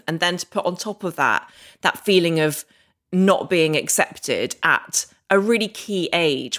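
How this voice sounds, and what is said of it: Very English accent. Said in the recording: “as you can hear, I've got a very English accent.”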